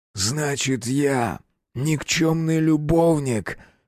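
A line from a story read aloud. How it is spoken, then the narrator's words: Hoarse question. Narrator (Russian): хрипло спросил охотник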